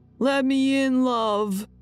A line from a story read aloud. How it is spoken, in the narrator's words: yelling